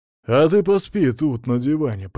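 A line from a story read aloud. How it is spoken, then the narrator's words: Grumbling. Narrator (Russian): проворчал Мамонов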